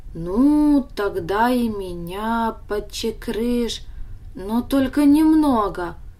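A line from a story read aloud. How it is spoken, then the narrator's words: Hesitant request. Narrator (Russian): неуверенно попросил Даня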